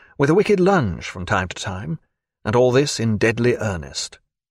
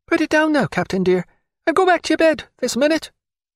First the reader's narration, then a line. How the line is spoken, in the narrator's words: she did so in a squeak